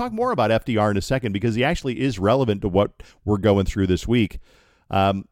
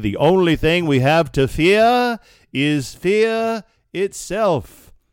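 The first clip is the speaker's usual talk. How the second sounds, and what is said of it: Old-fashioned British-sounding presidential voice. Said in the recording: “Why an American president had a British accent”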